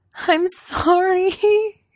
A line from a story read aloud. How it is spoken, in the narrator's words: she sobs